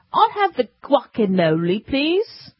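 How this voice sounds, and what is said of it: Weak put-on English accent. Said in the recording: “somebody ordering that with an English accent? ... I do a weak English accent.”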